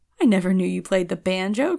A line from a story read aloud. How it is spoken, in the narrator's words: cried Harris and I in one breath